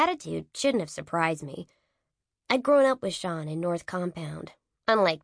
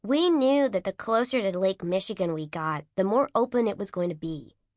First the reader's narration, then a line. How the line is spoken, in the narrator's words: said flatly